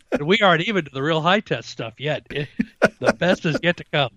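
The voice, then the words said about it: Missouri accent. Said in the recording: “pick up some of my Missouri accent again. Go to the holler.”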